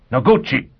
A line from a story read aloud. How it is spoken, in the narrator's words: 4 Mile shouted